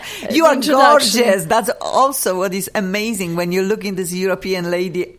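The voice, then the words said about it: Accented English, emotional delivery. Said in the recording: “emotional, accented presentation”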